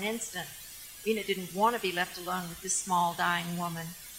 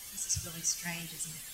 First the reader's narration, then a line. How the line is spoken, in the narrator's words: Vina whispered